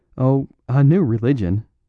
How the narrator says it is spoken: said Flambeau, laughing

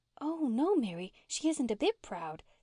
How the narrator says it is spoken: said Una eagerly

